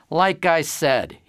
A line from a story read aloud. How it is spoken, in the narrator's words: he replied dryly